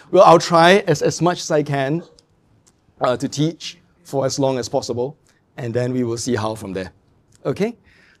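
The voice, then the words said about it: Strained, failing voice. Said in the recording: “my voice is going”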